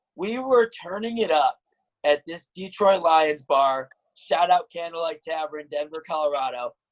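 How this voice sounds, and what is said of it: Hoarse, nearly lost voice. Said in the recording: “my voice is basically almost still gone”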